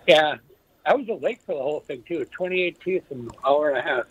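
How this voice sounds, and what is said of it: Weird, altered-sounding speech. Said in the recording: “my voice sounds weird”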